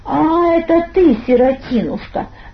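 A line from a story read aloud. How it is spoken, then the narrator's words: Drawled with a smirk. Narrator (Russian): протянул он с усмешкой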